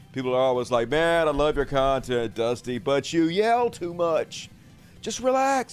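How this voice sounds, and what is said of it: Very fast, loud carnival-barker delivery. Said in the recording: “Why are you yelling so much? I'm not actually yelling. It just seems like I'm yelling because I'm talking very fast... talk quite as fast and loud as I normally do on the show with the carnival barker voice”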